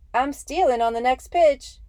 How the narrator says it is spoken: he shouted at Roe in that squeaky voice of his

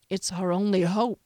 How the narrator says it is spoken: Valraker said, sinking wearily

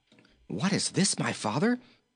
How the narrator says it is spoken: exclaimed, amazed

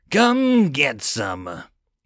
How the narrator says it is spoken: He roared

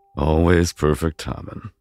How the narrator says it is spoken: Palmer chuckled under his breath, whispering

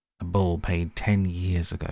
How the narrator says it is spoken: the pack snarled

